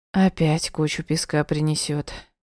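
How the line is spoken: Sigh. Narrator (Russian): вздохнула Дианка

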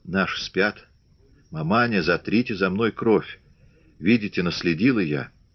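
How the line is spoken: Hoarse whisper. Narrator (Russian): Наталья хрипло прошептала

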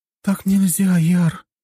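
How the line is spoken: Quiet tired whisper. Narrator (Russian): уже значительно тише и очень устало прошептала Настя

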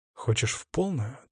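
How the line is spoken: Quiet question. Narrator (Russian): тихо спросил я его

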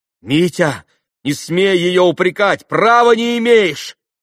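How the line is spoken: Heated shout. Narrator (Russian): горячо крикнул на брата Алеша

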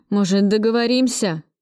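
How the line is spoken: Moaning. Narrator (Russian): Филюшкин застонал

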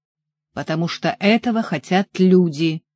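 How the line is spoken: Angry. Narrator (Russian): сердито ответил он

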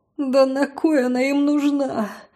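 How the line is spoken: Breathless wheeze. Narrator (Russian): Задыхаясь, просипела я

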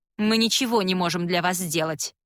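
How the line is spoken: Sharp queen. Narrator (Russian): резко произносит королева

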